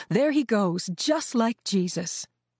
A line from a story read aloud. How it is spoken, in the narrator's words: women and men shouted out to him